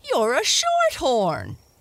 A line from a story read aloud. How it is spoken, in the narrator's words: exclaimed